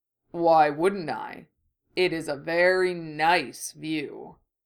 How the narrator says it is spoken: the bull rumbled back

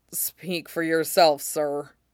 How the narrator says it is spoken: Fox mutters

